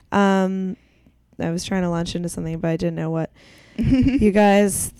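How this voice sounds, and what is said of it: Phlegmy, congested voice. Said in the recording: “I'm starting to choke on my own phlegm ... it's a sexy voice.”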